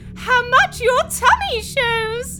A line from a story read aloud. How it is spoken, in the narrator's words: Aunt Spiker cried